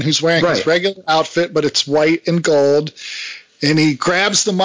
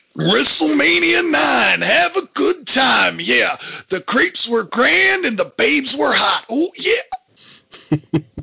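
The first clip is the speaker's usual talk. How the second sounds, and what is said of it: Macho Man wrestler impression. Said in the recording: “that Macho Man impersonation”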